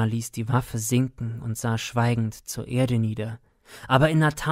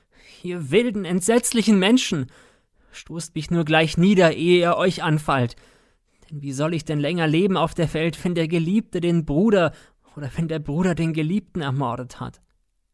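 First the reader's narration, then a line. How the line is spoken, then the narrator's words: Sobbing loud cry. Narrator (German): Schluchzend rief sie laut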